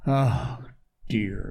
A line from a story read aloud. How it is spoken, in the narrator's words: groaned Ben